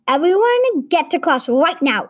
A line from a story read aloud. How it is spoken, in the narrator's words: she shouted